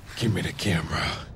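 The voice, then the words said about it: Batman-style character voice. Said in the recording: “doing his Batman voice.”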